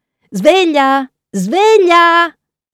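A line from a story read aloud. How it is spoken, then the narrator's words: Shouting. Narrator (Italian): Lui lancia un grido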